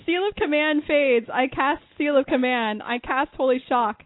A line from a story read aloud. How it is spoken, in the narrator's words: Kai was running around yelling